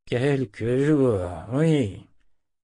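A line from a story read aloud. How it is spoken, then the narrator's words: Grumbled. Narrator (French): grogna Zed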